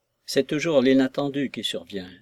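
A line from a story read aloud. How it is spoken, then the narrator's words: Placating tone. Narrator (French): déclarai-je d'un ton propitiatoire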